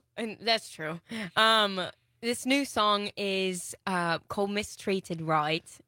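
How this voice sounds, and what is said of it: Put-on British accent sounding Australian. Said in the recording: “this is totally an Australian accent ... You can shelve the British accent.”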